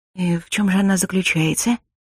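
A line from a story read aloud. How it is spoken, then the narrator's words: Barely audible question. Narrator (Russian): Так же еле слышно поинтересовалась я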